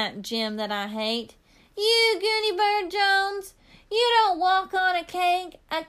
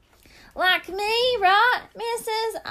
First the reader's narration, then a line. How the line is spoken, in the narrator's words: I hollered out